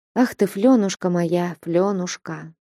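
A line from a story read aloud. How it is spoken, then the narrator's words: Quiet, after long silence. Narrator (Russian): тихо проговорила она после долгого молчания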